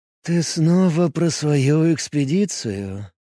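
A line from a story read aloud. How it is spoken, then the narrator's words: Sighed. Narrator (Russian): вздохнул Смок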